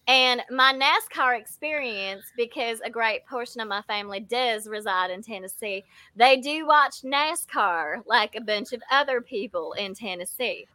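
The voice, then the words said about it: Put-on Tennessee Southern accent, higher pitch. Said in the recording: “It's a Tennessee Southern slang, actually. It has to be a little higher, but in between ... this accent ... they do, however, talk like this.”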